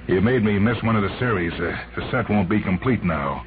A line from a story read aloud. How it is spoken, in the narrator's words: He said bitterly